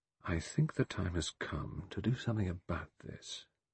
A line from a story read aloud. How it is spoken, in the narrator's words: He said very softly